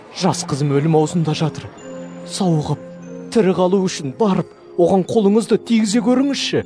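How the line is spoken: Pleading entreaty. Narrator (Kazakh): деп жалына өтінді

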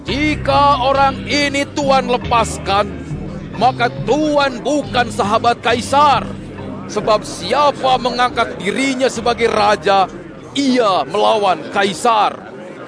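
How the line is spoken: Crowd shouting repeatedly. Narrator (Indonesian): orang-orang Israel itu berteriak-teriak

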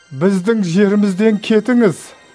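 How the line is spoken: Pleading request. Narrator (Kazakh): деп өтінді

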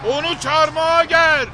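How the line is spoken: Shouting together. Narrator (Turkish): diye bağırıştı

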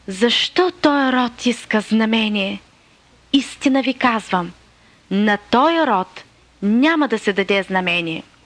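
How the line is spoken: Deep heartfelt sigh. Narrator (Bulgarian): въздъхна дълбоко от сърце и рече

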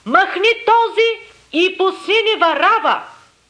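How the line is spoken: Crowd shouting in unison. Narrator (Bulgarian): всички единогласно изкрещяха, казвайки

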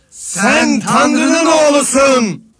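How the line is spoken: Many voices shouting. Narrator (Turkish): diye bağırıyorlardı

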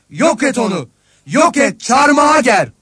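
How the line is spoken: Crowd shouting over each other. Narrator (Turkish): diye bağırıştılar

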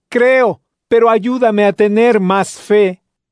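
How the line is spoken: Father crying out at once. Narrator (Spanish): El padre del niño gritó al instante

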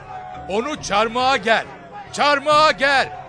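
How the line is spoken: Crowd shouting. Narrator (Turkish): diye bağırdılar

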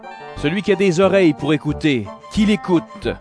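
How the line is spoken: Loud voice. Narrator (French): Jésus dit d'une voix forte

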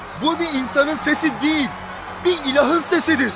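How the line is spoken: Shouting. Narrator (Turkish): diye bağırıyordu

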